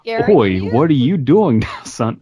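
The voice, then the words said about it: Bad put-on Australian accent. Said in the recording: “we do bad Australian accents ... Are y'all ready for my Australian accent?”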